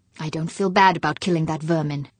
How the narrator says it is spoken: Fuchs said in a low, firm voice

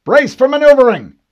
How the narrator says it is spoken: the Master Chief barked

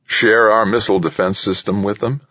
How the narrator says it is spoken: State scoffed at the idea

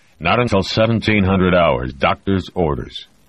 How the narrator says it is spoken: Connors said testily

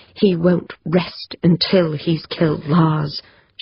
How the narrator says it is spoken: she said, her voice low but hard, determined

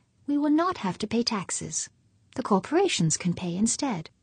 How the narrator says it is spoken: she said sweetly

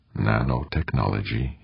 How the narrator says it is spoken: muttered

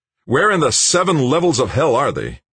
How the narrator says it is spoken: shouted

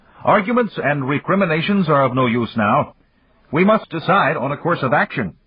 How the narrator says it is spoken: he called out loudly

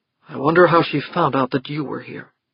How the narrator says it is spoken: he muttered

